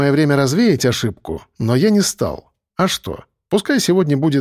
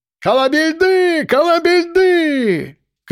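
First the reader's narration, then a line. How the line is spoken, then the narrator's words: Excited crowd shouting. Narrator (Russian): кричали восторженные гости ресторана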